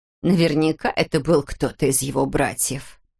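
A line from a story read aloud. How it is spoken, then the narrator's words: Through gritted teeth. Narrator (Russian): процедила Ширли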